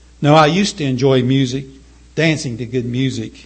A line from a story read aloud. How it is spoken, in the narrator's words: Charles said